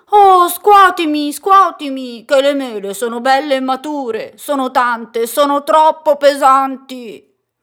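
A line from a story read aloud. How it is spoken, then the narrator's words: Tree shouting. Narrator (Italian): L'albero gridò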